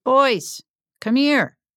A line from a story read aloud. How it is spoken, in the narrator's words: he called out